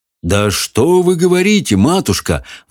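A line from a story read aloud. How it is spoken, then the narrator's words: Shepherd exclaiming. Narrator (Russian): воскликнул пастух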